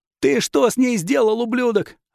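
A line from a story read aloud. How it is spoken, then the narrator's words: Deafening furious yell. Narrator (Russian): оглушительно заорал Йосай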